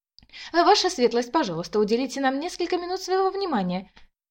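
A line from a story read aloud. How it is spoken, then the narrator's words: High-pitched chirping. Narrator (Russian): прощебетала высоким голосом худощавая блондинка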